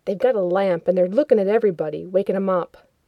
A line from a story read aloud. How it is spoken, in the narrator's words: muttered